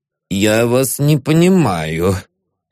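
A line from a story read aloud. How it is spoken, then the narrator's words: Dejected, sinking voice. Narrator (Russian): сказал он упавшим голосом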